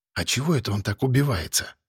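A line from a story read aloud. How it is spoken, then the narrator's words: Whispered question. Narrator (Russian): шепотом спросила меня Вера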